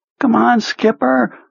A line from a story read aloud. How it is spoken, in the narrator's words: pleaded